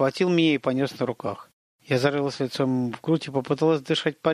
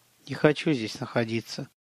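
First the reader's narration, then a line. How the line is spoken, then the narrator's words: Muffled whisper. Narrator (Russian): прошептала, уткнувшись лицом в колени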